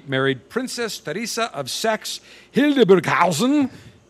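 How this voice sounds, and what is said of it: Put-on German accent. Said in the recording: “You like my German accent? ... Hildburghausen? Sounds great.”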